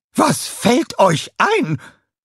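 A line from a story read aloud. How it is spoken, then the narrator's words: Red-faced angry shouting. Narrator (German): schrie sie mit hochrotem Gesicht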